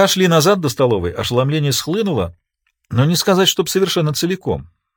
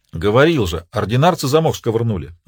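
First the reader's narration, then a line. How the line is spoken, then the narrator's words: Plain. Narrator (Russian): ответил Паша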